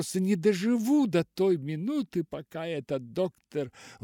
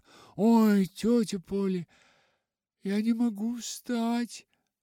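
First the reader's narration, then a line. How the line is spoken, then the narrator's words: Groaning. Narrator (Russian): Простонала она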